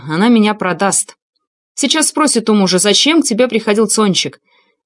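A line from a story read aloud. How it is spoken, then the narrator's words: Barked. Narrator (Russian): Тараса рявкнет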